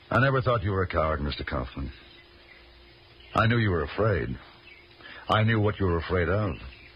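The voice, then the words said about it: Speaks with a foreign accent. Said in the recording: “Like you having an accent and me not.”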